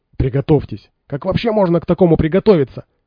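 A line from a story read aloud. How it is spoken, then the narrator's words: Indignant yelling. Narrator (Russian): возмущенно орал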